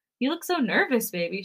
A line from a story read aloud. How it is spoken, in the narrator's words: she giggles with me